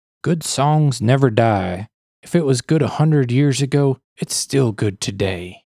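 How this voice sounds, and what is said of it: Imitates another person's voice. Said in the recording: “my impeccable Willie impression ... It sounded real. I thought you had Willie over your house there for a second.”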